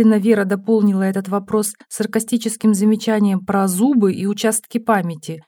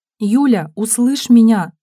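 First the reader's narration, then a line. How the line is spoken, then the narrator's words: Pleading. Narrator (Russian): взмолилась Стенина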